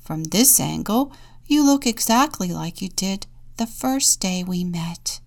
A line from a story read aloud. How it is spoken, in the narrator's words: Grouse sweetly